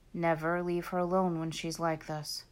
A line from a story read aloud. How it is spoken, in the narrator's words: he murmured